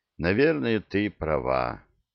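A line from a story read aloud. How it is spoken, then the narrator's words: Heavy sigh. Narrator (Russian): тяжело вздохнул король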